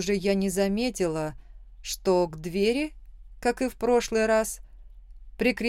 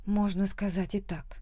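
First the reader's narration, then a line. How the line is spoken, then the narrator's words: Quiet reply. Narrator (Russian): тихо ответила я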